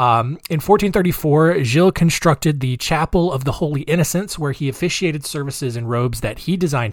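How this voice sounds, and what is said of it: Usual voice. Nothing is said of it.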